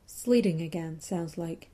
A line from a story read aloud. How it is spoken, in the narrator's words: Ray said in a perfectly normal tone